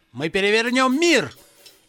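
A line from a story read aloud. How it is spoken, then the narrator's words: Shout. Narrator (Russian): Джон выкрикнул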